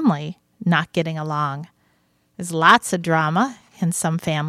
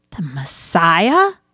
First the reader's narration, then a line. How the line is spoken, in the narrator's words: Mary gasped